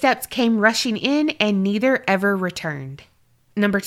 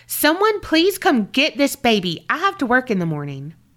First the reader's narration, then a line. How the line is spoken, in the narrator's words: She yelled out